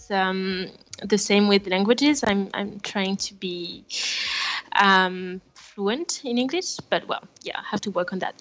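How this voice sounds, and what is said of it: French accent in English. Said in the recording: “I'm French. Maybe you can hear my accent.”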